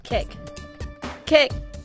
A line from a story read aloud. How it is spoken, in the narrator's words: she would yell